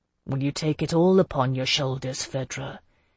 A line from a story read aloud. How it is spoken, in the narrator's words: Jocelyn asked me quietly